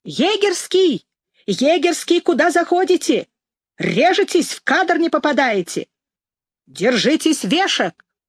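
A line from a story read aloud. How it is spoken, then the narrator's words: Young ringing shout, megaphone. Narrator (Russian): снова закричал молодым, звонким голосом в мегафон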